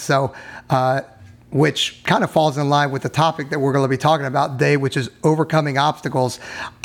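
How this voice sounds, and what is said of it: Slightly hoarse voice. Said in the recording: “I'm a little bit hoarse”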